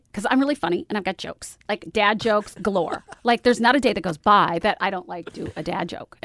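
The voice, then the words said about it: Imitates another person's voice. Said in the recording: “doing an impression of me right now”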